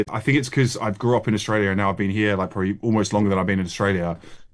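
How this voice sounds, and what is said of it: Australian accent, nasal O sound. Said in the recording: “You've still got that twinge, though. You've still got the accent, haven't you? It's the classic... it's the nose... It's that O sound”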